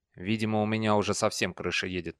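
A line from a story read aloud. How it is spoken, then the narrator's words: Muttered. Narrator (Russian): пробормотал он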